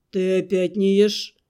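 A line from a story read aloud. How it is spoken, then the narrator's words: Displeased question. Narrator (Russian): недовольным тоном задал верлианец такой привычный уже вопрос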